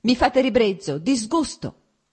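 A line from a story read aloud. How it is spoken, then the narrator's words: Shouted, growing more heated. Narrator (Italian): gridò lei riscaldandosi ancora di più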